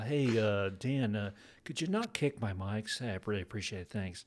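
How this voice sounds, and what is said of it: Terrible Tim Cook impression. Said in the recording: “my terrible Tim Cook impersonation”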